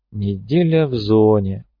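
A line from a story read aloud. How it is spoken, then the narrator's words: Drawling. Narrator (Russian): протянул фармер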